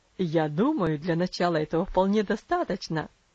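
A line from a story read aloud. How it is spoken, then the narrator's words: Laughing. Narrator (Russian): засмеялся отец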